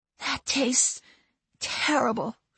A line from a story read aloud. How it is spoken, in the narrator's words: she said hoarsely